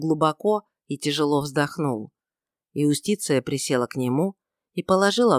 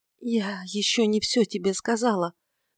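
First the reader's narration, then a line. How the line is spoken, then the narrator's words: Trembling voice. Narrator (Russian): начала она дрожащим голосом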